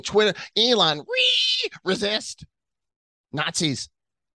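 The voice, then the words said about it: Mocking put-on activist voice. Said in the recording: “we're gonna go to the social justice warrior accent”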